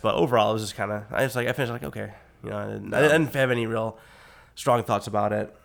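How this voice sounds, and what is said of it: Rough, sick-sounding voice. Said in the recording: “sorry for my voice. ... I've been sick as shit for like 2 days ... Like a sexy party voice”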